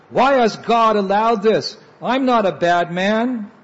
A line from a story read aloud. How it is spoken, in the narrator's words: he screamed